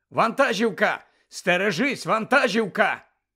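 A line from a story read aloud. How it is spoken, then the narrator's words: Someone shouting a warning. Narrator (Ukrainian): хтось вигукнув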